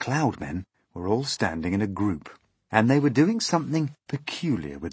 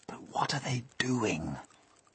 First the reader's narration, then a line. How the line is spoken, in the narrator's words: the old green grasshopper whispered